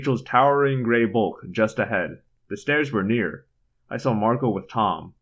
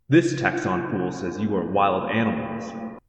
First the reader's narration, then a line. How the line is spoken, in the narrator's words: Visser Three said